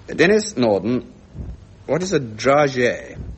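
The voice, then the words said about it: Put-on French accent. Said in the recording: “I'm sorry about the French accent, but I think this is necessary.”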